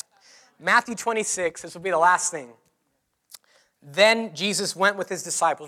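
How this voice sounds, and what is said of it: Hoarse, strained voice. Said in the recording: “I'm really losing my voice here”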